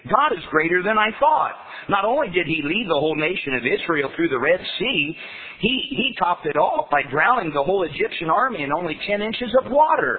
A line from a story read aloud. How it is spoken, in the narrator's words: exclaimed the boy happily